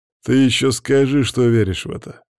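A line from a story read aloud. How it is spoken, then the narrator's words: Scoffing snort. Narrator (Russian): хмыкнул Макс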